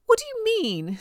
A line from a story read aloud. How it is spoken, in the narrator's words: squealed Alexis, his voice going up an octave, again, almost like a real girl